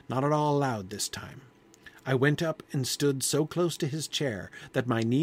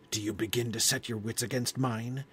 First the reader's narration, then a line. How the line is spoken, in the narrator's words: said, almost in a whisper